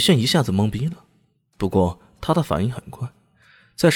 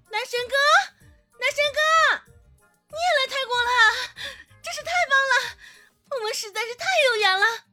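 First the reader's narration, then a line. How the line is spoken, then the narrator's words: Woman shouting loudly. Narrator (Chinese): 女子冲着他大喊道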